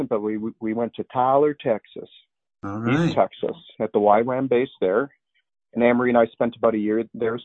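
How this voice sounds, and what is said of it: Speaks with a noticeable accent. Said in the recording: “you'll excuse my accent”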